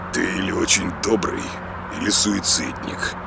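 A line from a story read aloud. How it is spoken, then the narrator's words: Muttered. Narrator (Russian): пробормотал Влад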